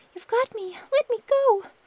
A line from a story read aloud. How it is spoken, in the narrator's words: Thumbling cried